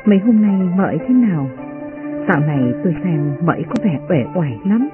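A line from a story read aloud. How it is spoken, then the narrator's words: Soft question. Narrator (Vietnamese): Uyên Ương khẽ hỏi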